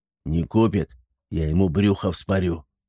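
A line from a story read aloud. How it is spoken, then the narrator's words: Gruff grumble. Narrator (Russian): буркнул дубина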